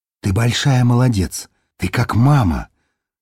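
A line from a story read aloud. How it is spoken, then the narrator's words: Whisper. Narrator (Russian): прошептала она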